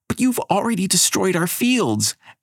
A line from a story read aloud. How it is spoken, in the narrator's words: Abigail shouts